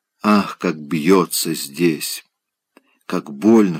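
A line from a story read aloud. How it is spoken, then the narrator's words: Pained whisper. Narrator (Russian): шептала она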